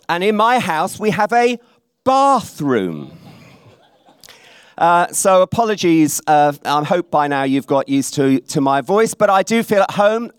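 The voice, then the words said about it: English accent from Berkshire. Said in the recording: “I'm just going to give you a few more minutes to get used to my voice. I'm told in places like this that I have an accent ... Where I live in Maidenhead in Berkshire”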